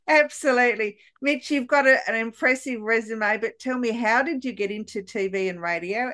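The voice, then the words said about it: Australian accent. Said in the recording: “the beautiful Australian accent”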